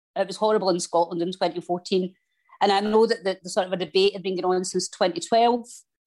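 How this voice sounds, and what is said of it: Scottish accent. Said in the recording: “they heard my accent ... oh, you're Scottish”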